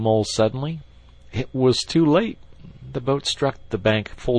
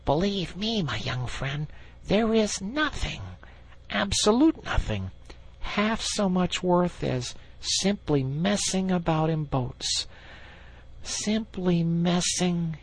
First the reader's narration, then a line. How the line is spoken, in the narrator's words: he went on dreamily